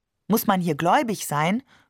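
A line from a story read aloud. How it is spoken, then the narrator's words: Plain. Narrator (German): fragte ich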